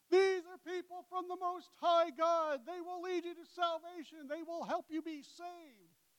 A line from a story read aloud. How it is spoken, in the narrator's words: was yelling